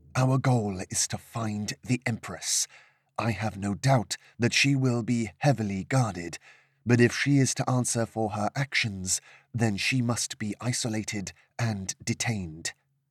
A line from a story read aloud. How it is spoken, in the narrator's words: whispered